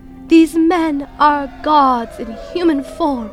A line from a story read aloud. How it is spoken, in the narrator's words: When the crowd saw what Paul had done, they shouted in their local dialect